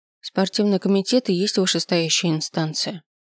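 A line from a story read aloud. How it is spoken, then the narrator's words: Quiet remark. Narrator (Russian): тихо заметила я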